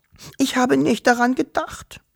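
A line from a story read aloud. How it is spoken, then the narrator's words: Sobbing. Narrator (German): schluchzte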